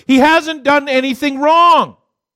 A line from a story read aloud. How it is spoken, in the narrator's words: Pilate yells out